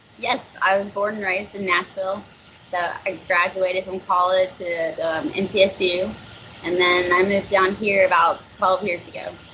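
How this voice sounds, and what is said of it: Slight Tennessee twang. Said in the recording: “I'm hearing a little bit of a twang there ... Are you originally are from Tennessee?”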